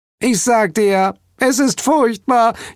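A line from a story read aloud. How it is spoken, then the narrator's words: Whining. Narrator (German): jammerte Hel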